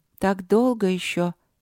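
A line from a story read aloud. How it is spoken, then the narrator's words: Disappointed sigh. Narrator (Russian): разочарованно вздохнула Поля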